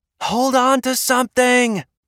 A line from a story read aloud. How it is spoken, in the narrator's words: the pilot screamed